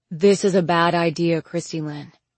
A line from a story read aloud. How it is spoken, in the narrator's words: he said evenly